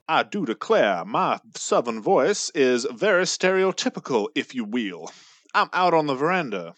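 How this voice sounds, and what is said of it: Stereotypical Southern accent. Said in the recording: “Southern voices ... It's not a very nuanced one. It's just, you know, your standard Southern one.”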